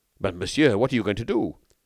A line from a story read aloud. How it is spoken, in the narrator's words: Devanne exclaimed anxiously